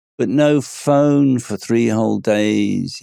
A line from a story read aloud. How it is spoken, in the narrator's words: he groaned to himself